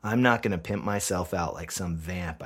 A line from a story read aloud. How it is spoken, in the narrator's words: I growl